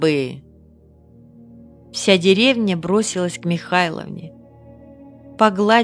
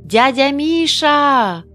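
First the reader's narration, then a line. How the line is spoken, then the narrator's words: Children shouting. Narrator (Russian): это кричали дети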